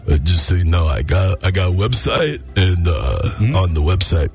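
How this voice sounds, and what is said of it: Sylvester Stallone Rocky impression. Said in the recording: “you can talk like this ... But you sound stupid ... It's official Sly Stallone ... Rocky fedora ... You can wear the hat if you don't do the voice ... Don't do the voice”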